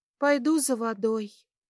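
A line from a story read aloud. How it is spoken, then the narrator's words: Sigh. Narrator (Russian): вздохнул Бобби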